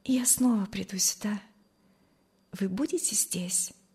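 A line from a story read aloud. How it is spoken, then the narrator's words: Quiet. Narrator (Russian): сказала она тихо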